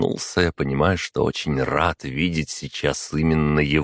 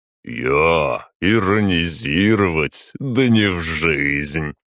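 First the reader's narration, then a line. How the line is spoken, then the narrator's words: Answering with pleasant laugh. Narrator (Russian): ответил маг и засмеялся своим приятным смехом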